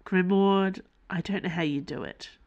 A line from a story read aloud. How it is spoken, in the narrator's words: Dana sighed